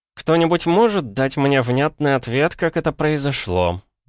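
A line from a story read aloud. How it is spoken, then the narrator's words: Through gritted teeth. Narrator (Russian): процедил Георг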